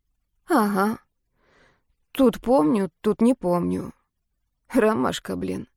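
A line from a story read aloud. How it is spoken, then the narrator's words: Hoarse confirmation. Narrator (Russian): сипло подтвердила я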